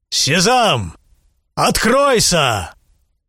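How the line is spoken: Loud commanding shout. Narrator (Russian): Великолепно одетый всадник, предводитель отряда, вскричал громким голосом

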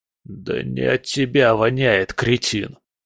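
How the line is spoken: Wheezing, spitting blood. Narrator (Russian): просипел один из бандитов, сплевывая кровь

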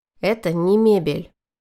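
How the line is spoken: Stern. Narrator (Russian): строго сказал Шантюша

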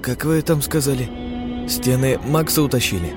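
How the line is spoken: Muttering. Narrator (Russian): пробормотал Денис

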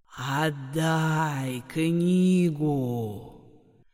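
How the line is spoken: Hissed. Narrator (Russian): Прошипел голос

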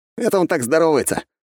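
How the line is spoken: Snort with sniffle. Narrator (Russian): хмыкнул молодой человек, шмыгнув носом

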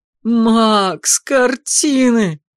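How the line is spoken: Sudden howl, older stepbrother. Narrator (Russian): Вдруг взвыл Артур, старший сводный братец

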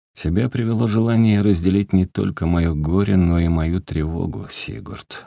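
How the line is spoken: Sighing. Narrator (Russian): вздохнул Олег

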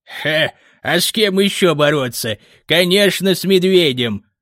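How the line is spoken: Old man chuckling. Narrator (Russian): хохотнул старик

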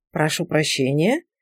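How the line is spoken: Muttered apology. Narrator (Russian): пробормотала она дереву

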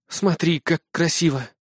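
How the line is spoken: Whispered. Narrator (Russian): прошептала Шанго

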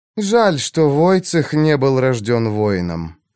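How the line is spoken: Sighing. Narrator (Russian): вздохнула госпожа Берта

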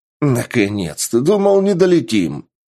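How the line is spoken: Exclaiming. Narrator (Russian): воскликнул

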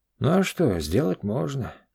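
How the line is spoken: Hoarse. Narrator (Russian): хрипло сказал он

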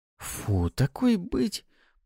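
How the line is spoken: Inner moan. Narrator (Russian): Простонала в голове Суккуба

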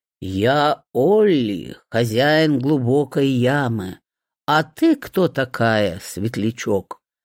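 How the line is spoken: Low booming voice. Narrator (Russian): Прогудел он низким голосом

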